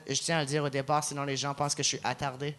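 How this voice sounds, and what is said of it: Acadian French accent. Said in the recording (French): “j'ai un accent, c'est un accent acadien”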